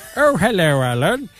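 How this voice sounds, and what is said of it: Alan Partridge impression. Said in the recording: “I get quite good at my Alan Partridge, aren't I? ... You are quite good at voices”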